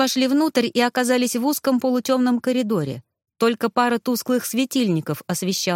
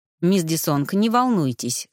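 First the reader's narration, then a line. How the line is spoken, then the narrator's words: Calm reply. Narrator (Russian): спокойно ответил он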